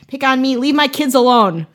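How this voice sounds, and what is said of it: Put-on Wisconsin accent. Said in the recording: “it's in like a Wisconsin accent where it's like”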